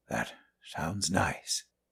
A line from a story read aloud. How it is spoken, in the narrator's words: he whispered